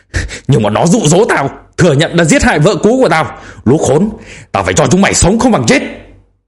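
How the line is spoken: Yelling. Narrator (Vietnamese): gào lên

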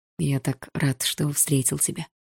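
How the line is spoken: Quiet. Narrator (Russian): тихо сказал Игорь

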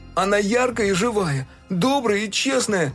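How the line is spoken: Near shouting. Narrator (Russian): уже почти кричал Фил

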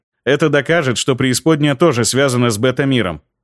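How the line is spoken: Plain. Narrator (Russian): ответил я

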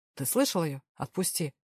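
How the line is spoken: Even, overly calm tone. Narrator (Russian): Ровным тоном сказал Дэвил, что казалось слишком спокойным

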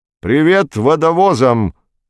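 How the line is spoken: Astrophysicist's shout. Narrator (Russian): крикнул астрофизик Никольский, проходя мимо

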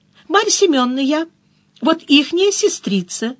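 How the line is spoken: Joyful. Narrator (Russian): сказала, радостно

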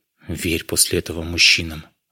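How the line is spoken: Sigh. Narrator (Russian): вздохнула она

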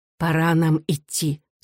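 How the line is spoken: Plain. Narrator (Russian): сказала мать

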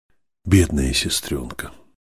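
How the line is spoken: Tender, brotherly. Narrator (Russian): еще раз ласково сказал брат

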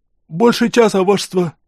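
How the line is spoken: Hoarse, shivering soldier. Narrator (Russian): просипел солдат, отчаянно пытаясь не стучать зубами

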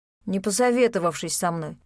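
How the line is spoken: Displeased mutter. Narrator (Russian): недовольно пробурчал Леон

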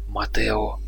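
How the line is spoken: Whispered. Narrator (Russian): прошептал Мигуэль

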